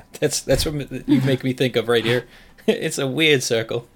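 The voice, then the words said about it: Imitated Taika Waititi accent. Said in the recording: “It's a good accent”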